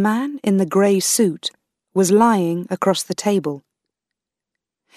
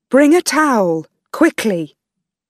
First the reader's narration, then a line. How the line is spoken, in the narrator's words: screamed, shouted